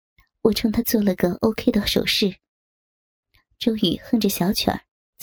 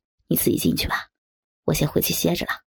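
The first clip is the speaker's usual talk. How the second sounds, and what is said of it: Quiet, low-voiced line. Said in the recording (Chinese): “小声的对我说”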